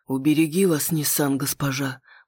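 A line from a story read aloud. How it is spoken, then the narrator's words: Whispered. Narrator (Russian): прошептал капитан замковой стражи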